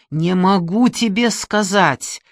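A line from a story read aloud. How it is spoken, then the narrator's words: Nearly shouting. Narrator (Russian): он уже почти кричал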